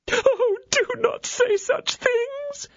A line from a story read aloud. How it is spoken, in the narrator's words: exclaimed the attorney's wife, bursting out into sobs